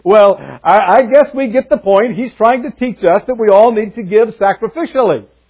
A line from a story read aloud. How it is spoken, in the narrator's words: chuckled a little and said